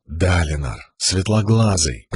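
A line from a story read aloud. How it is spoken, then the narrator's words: Whisper. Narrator (Russian): прошептала часть его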